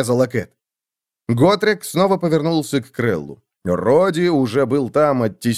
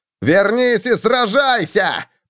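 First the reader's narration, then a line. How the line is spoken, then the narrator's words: Roaring. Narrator (Russian): проревел Роди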